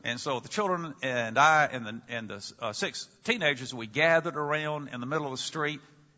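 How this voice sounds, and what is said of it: Deep South American accent, Mississippi. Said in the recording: “From your accent, not only can we tell you're an American, we can just about pinpoint the area in America where you come from ... obviously the Deep South and somewhere maybe like Mississippi”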